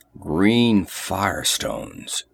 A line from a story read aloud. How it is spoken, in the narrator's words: growled Conan